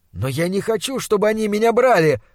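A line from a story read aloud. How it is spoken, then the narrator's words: Desperate shout. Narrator (Russian): выкрикнул я, забывшись от невыносимой перспективы быть отлученным от него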